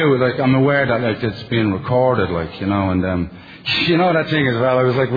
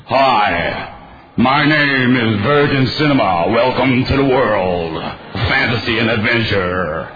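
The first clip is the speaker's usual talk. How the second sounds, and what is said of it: American cinema announcer voice. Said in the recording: “they all sound like the guy in the cinema, you know, the guy that does the presentations”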